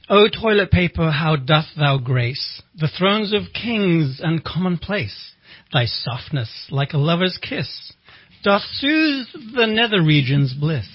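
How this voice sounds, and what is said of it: Theatrical Shakespearean voice. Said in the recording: “put on my best Shakespeare voice”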